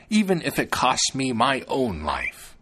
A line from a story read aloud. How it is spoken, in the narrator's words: she exclaimed